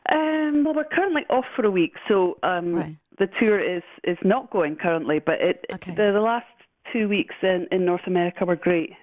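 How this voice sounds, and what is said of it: Speaks with a distinctive accent. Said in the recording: “I'm just so mad about your accent ... the most beautiful accent”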